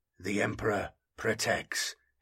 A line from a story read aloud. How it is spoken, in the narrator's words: he intoned, quietly resigned to his fate